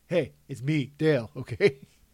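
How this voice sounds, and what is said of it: Bad John C. Reilly impression. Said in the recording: “That wasn't a good John C. Reilly voice. ... That was a terrible impersonation. ... What kind of cartoon character was that?”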